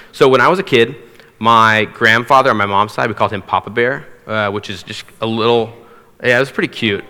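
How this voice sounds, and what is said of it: Slightly hoarse voice. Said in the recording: “My voice is a little bit hoarse, by the way. I lost it on Tuesday and it's slowly been coming back”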